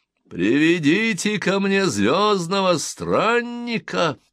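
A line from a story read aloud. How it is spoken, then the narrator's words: Booming voice. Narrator (Russian): прогремел голос Румфорда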